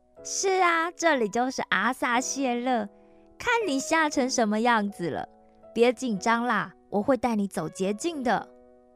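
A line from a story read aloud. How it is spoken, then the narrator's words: Smiling. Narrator (Chinese): 小驴沙朗笑着说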